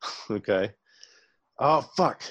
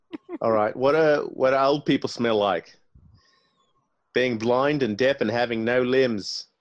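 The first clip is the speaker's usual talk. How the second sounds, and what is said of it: Put-on Australian accent. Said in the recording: “your accent is Australian.”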